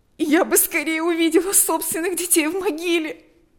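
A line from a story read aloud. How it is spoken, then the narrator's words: Sobbing. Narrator (Russian): рыдала она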